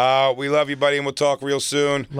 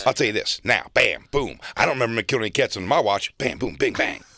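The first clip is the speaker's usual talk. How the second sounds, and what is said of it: Imitates another person's voice. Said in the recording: “my Kev impression”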